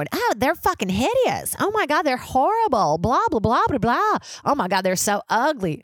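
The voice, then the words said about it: Put-on Southern accent. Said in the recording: “They didn't have a Southern accent. I just feel like it's more nauseous if I do it that way.”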